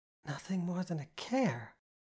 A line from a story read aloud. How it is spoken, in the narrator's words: I asked quietly